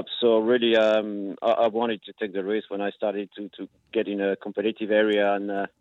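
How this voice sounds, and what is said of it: French accent. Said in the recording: “with your accent, ... you're from France”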